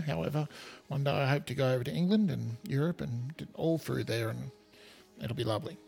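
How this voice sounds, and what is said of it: Australian accent. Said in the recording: “as you can hear from my accent, I'm in Australia”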